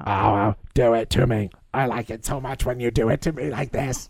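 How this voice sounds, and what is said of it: Exaggerated sexy imitation of character voice. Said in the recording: “Is not what she sounds like. She has a very sexy voice.”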